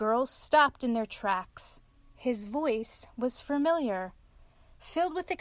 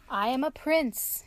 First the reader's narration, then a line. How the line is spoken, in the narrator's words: answered